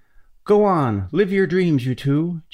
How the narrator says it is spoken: Jim shouted

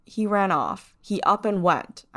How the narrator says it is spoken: I said

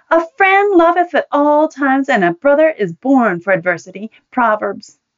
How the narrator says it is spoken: indignantly bellowed for all to hear

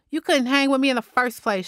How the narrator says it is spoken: Shirley snapped

